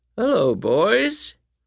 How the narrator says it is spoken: came a raspy voice

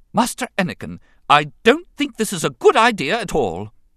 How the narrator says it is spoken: C-3PO declared in a sharp tone of admonishment

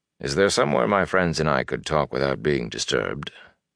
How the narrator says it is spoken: added quietly

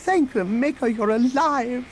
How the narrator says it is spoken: the droid exclaimed

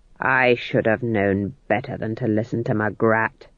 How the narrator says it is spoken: growled Nanny

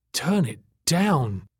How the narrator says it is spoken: Tack croaked weakly

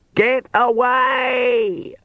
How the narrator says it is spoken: she screamed

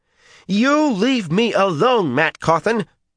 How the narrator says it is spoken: all but shouted

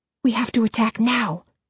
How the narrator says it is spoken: I whisper harshly

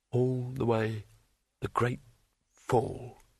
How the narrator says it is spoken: muttered Rincewind

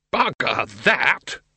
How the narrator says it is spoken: he roared

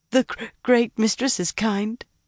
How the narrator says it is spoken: Leandrin agreed, around hiccups and occasional sobs that she could not stifle

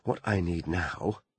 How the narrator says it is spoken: she muttered to herself

